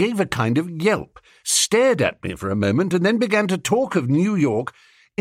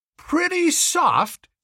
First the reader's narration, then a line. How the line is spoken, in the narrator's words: he cried